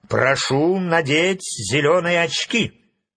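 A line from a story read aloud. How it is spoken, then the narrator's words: Stern. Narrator (Russian): строго сказал Фарамант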